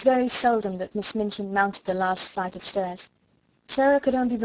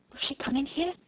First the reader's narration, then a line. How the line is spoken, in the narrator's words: Ermengarde whispered back, panic-stricken